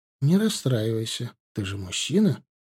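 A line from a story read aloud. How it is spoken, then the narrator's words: Soothing. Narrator (Russian): начала она успокаивать его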